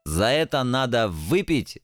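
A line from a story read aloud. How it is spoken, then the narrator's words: Joyful devil. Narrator (Russian): радостно подмигнул черт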